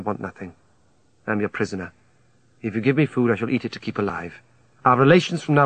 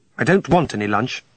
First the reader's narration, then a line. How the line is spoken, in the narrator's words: I snapped him